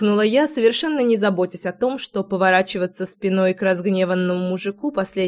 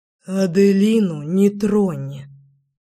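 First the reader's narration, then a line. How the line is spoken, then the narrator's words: Beast's growl. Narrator (Russian): прорычал зверь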